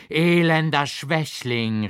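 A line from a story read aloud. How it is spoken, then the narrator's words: Called out. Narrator (German): rief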